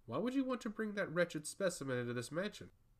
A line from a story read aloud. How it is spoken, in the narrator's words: Curnos laughed heartily